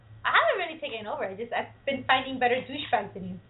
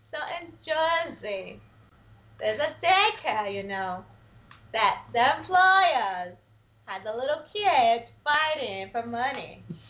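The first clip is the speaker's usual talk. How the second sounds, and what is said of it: Put-on New Jersey accent. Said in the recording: “do the whole thing in a Jersey accent”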